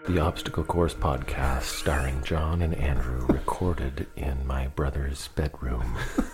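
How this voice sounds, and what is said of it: Formal radio announcer voice. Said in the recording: “Please read your book like that when you do record it. ... put on my best CBC voice.”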